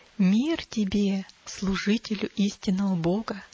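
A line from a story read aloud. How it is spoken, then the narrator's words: Plain. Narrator (Russian): сказал незнакомец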